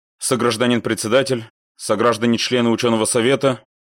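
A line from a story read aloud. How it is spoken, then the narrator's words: Miserable rote mumbling. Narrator (Russian): после увесистого особистского тычка в бок, несчастным голосом забубнил автарк загодя заученный текст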